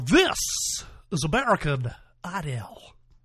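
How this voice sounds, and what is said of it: Radio announcer voice. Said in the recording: “that's my Ryan Seacrest impersonation... That's my radio announcer voice”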